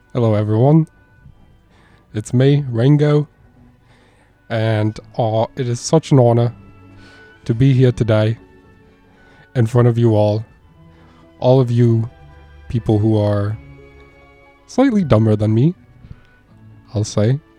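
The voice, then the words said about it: Imitated voice, Australian-American accent mix. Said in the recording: “Perfect Ringo Starr accent. Perfect mix of Australian and American.”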